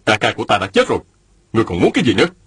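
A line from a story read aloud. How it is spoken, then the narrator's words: Angry. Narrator (Vietnamese): Mạnh Đào giận dữ nói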